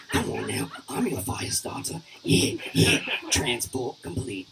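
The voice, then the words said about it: Imitates another person's voice. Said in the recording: “This is my impression of Jason Statham having sex.”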